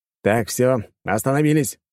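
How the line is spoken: Loud shout through house. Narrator (Russian): крикнул я на весь дом

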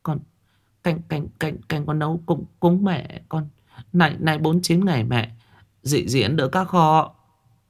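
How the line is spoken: Stammering. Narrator (Vietnamese): Thảo ấp úng

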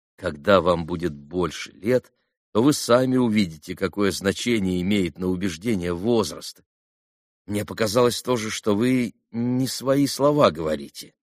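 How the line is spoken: Modest, calm reply. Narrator (Russian): скромно и спокойно ответил Алеша

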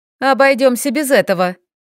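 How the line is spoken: Cheerful warning. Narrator (Russian): весело предупредила Арина

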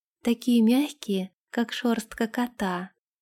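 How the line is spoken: Whisper. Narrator (Russian): прошептала она

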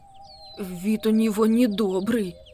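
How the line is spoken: Trembling voice. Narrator (Russian): проговорил Макси дрожащим голосом

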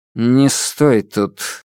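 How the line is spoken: Icy command. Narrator (Russian): ледяным голосом приказал цесаревич

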